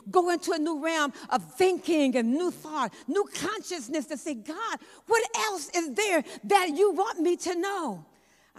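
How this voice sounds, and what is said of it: Excited, energetic preaching delivery. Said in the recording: “I know I sound excited”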